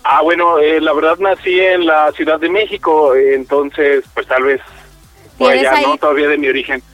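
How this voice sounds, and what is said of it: Very fast speech. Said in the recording (Spanish): “¿Y por qué hablas tan rápido? ¿Así hablamos aquí o qué?”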